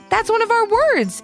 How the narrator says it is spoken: exclaimed Maddie

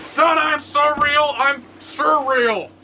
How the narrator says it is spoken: He shouts back

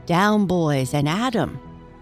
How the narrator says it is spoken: Peter's voice rang out

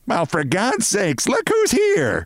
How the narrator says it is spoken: bawled Mrs

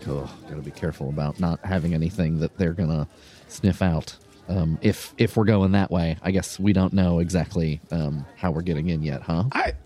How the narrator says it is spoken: Mercus, like under her breath

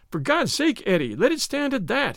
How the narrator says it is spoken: he cried

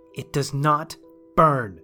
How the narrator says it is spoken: Sue snapped

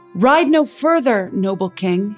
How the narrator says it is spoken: he shouted

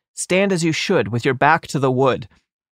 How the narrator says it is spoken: cried out

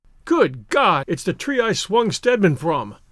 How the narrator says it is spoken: cried, and a strange fear thrilled him

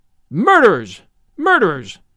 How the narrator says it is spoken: yelled

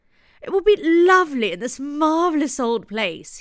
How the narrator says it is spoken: cried

